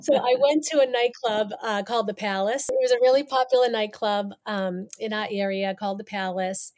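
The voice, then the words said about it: Massachusetts accent. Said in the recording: “so I'm from Massachusetts, obviously you hear the accent”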